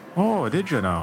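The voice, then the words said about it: Bad put-on Irish accent. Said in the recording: “mocking tone ... It was an Irish accent ... It was a bad one, but it was there ... Irish-ish accent”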